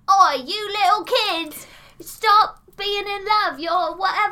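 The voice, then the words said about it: Deliberately bad put-on Cockney accent. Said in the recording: “I did, like, the worst Cockney accent you've ever heard. Worse than Dick Van Dyke. But it was, like, intentionally so.”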